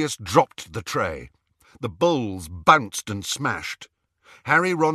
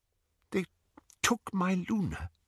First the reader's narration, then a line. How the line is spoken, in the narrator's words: he whispered